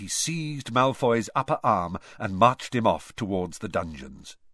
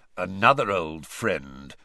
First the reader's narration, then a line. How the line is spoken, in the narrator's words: growled Moody